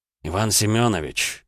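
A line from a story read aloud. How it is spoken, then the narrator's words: A prince's sigh. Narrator (Russian): вздохнул князь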